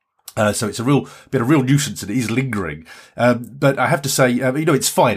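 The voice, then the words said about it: Sick-sounding voice. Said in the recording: “you can probably hear it in my voice. I've still got this blasted cold”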